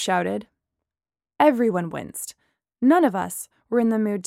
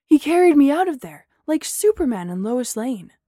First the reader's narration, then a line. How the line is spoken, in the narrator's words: Steve exclaimed